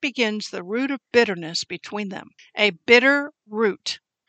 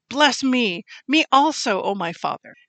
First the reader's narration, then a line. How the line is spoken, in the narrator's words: he cried with an exceedingly great and bitter cry and said to his father